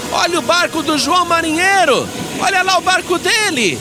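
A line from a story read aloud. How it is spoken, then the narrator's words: Shouted. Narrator (Portuguese): alguém que estava ali na praia gritou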